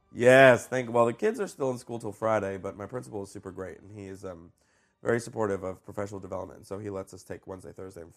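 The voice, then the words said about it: Rough, hoarse voice from a cold. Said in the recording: “apologize for my voice ... I caught a little cold ... I sound a little bit rough”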